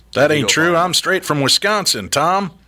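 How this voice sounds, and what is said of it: Put-on Texas accent. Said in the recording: “in Wisconsin, they're speaking with a Texas accent”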